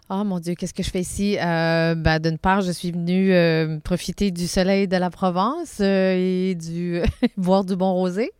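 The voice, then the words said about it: Southern French accent. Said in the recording (French): “comme toutes les personnes du sud, euh, vous allez entendre mon interlocutrice, elle a un accent.”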